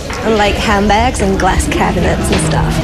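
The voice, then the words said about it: Very bad fake American accent. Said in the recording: “She's got maybe the worst American accent I've ever heard.”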